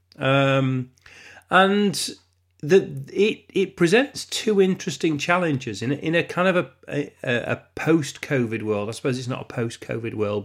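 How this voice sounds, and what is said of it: Congested, lower-pitched head-cold voice. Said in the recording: “I know it's a head cold ... it's all phlegmy and horrible ... I didn't sound like me at all ... My voice has warmed up a little bit, but sounding sort of, you know, down the register”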